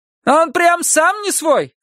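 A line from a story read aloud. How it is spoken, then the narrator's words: Shouted. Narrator (Russian): крикнула женщина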